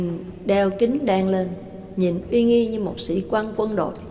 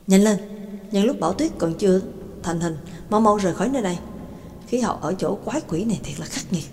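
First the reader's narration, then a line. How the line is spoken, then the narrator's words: Muttering. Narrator (Vietnamese): McKin lẩm bẩm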